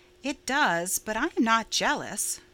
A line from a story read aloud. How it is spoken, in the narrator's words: said Stella calmly